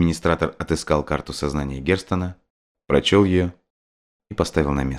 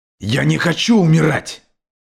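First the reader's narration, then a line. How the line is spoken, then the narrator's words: Terrified scream. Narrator (Russian): завопил Герстон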